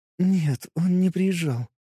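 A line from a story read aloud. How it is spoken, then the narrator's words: Quiet, trembling, tearful. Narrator (Russian): отозвалась Лиза, и голос ее звучал непривычно тихо, дрожал так, будто она плачет или только-только закончила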